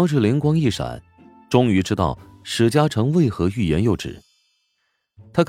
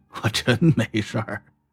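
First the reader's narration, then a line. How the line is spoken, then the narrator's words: Sheepish awkward laugh. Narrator (Chinese): 史嘉诚讪讪笑道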